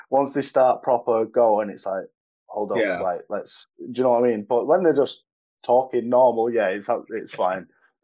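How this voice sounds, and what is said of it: Mild Glaswegian Scottish accent. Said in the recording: “obviously you're from Glasgow ... my accent's bad ... It's not thick.”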